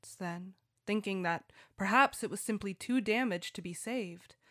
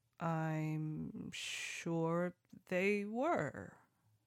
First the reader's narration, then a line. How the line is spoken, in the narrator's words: the son said slowly